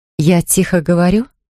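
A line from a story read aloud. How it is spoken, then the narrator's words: Plain. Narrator (Russian): спросила Катя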